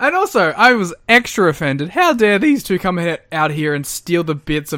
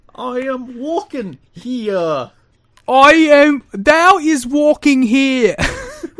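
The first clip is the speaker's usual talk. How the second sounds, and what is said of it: Deliberately terrible New York accent. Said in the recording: “doing terrible accents? ... horrific New York accent”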